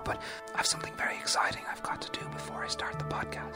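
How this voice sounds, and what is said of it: Whispering. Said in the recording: “whispering”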